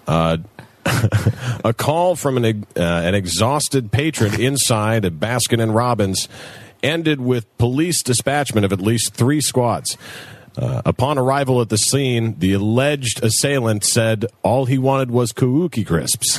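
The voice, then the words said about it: Serious over-enunciated newscaster voice. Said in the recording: “serious newscaster voice. ... all the newscasters they like overpronounce every syllable ... that sounded so official”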